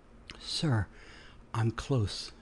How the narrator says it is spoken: moaned

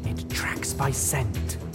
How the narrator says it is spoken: she hissed

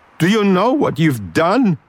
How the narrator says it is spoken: screamed, blinking tears out of his eyes

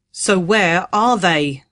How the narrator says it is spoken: the leader asked testily

